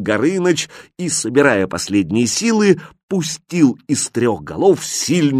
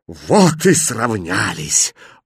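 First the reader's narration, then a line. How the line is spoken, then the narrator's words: Breathless exhale. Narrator (Russian): выдохнул Иван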